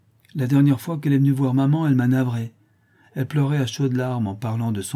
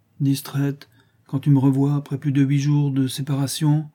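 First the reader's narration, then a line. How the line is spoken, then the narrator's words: Said sadly. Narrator (French): dit tristement Clara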